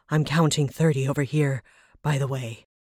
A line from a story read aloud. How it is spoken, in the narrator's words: he panted